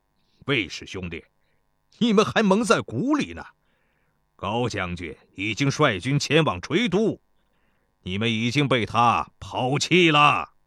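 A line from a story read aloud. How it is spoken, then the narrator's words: Mocking. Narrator (Chinese): 齐国将军嘲笑道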